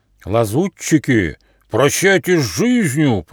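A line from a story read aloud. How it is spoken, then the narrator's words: Booming dragon voice. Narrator (Russian): прогудел один из драконов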